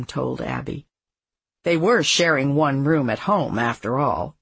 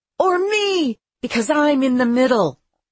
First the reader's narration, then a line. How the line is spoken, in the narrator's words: Tommy shouted